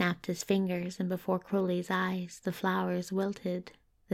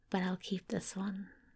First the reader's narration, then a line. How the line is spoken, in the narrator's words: said softly